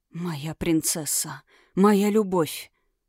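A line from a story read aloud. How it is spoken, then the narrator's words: Whisper. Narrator (Russian): прошептал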